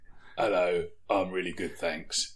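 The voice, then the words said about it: Hard Cockney evil thief character voice. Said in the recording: “It's my evil thief in a fantasy city voice here ... It's the only NPC voice I've got ... gone hard Cockney”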